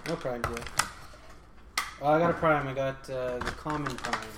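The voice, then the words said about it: Sad, disappointed tone. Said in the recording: “why do you sound so sad?”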